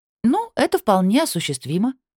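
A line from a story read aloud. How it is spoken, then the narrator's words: Cheerful declaration. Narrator (Russian): бодро заявила я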